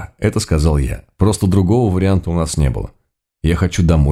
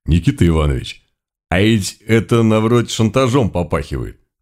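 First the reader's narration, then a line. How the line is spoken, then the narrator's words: Cautious low rumble. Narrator (Russian): осторожно прогудел Митька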